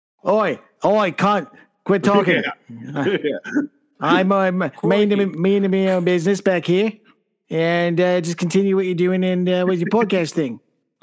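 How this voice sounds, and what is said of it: Bad put-on Australian accent. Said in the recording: “That's my bad Australian accent.”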